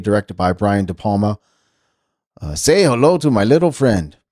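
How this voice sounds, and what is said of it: Put-on movie gangster accent. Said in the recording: “every accent I do is the same. So I could be doing an Italian restaurant, a Spanish accent, a Cuban accent, an Asian accent, a New York accent. ... It all sounds the same”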